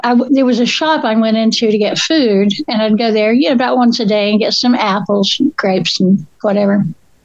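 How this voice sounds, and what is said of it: Southern Appalachian American accent. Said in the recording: “my accent just gets flatter and flatter and more Appalachian... I'm from North Carolina, up in the mountains”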